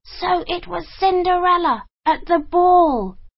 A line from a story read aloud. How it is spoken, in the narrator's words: cried the ugly sisters